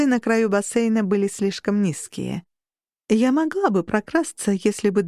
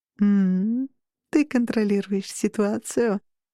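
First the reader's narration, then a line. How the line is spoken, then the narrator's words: Purring, woman. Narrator (Russian): промурлыкала женщина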